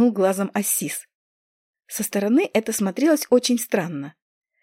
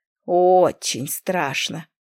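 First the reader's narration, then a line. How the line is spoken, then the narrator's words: Snorting cat. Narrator (Russian): фыркнул кот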